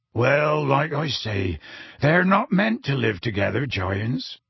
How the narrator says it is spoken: said Hagrid sadly

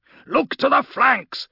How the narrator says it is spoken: shouted one of the arbitrators

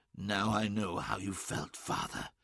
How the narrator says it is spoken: whispered

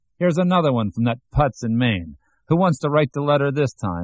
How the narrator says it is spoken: shouting

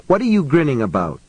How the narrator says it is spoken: She asked him sharply

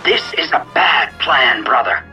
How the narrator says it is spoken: Nath growled

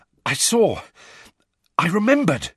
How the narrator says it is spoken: Harry panted

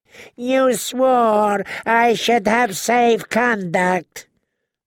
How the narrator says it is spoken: the Yunkish envoy wailed

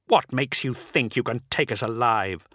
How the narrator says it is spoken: Solaro snarled

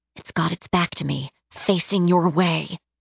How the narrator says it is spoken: she hissed

